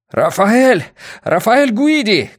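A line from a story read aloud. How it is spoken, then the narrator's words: Shouting. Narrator (Russian): крикнул Йона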